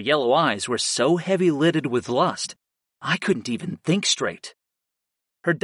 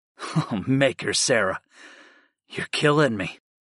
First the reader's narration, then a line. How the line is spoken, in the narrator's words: I sighed